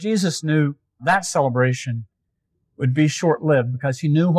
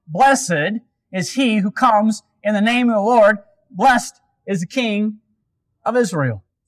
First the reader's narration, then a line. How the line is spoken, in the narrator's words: shouting